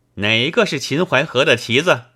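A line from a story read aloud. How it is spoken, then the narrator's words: Startled woman. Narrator (Chinese): 季之夫人吃了一惊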